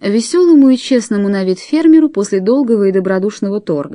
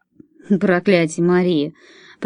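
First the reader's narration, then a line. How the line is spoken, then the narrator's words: Mumbling. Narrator (Russian): промямлил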